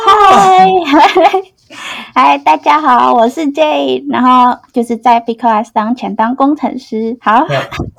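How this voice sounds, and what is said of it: Non-native Mandarin, Indonesian Chinese accent. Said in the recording (Chinese): “大家现在应该听得出来，就是 J 的口音还蛮不一样吧？...他好像不是本国人的...我来自印尼...印尼的华人”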